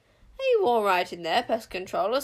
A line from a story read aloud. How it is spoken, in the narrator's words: snapped Queen Sycorax, peering through the Witchsmeller's visor